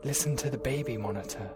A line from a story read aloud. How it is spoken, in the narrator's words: replied, also in a whisper